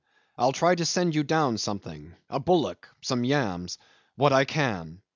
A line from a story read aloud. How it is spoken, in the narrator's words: called out Jim